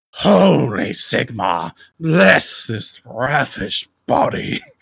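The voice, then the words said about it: Dramatic character voice. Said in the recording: “Let me get on my DM voice... That's a good one.”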